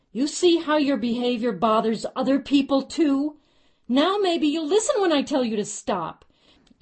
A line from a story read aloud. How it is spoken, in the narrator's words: yelled loudly for the benefit of those who were watching